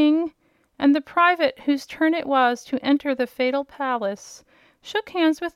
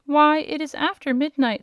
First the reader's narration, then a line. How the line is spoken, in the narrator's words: said the King